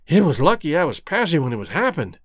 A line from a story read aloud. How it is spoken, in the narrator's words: panted Rex